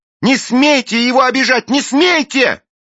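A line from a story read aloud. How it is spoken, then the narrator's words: Girl shouting. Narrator (Russian): Белинда кричала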